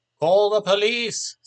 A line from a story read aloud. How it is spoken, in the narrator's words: someone from the audience shouted